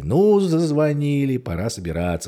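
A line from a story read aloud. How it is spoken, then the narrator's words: Plain. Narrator (Russian): сказала Маргарита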